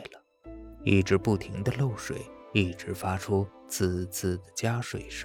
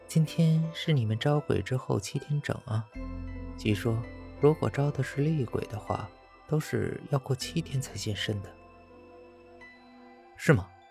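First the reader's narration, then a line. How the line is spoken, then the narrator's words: Mocking. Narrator (Chinese): 丽 冲我嘲笑道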